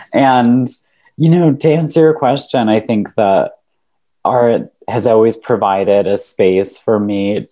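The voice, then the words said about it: Hoarse, congested voice. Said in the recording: “excuse my voice, I'm having a little bit of a lingering cold in my chest.”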